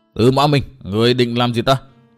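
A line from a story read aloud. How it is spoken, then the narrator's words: Angry growl. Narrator (Vietnamese): Độc Trung Chi Độc nổi giận, gằn giọng nói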